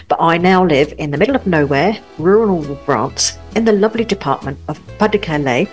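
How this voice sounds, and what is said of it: Cockney London accent. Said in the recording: “I'm a Brit, born and bred in London, as you may be able to tell from my Cockney accent”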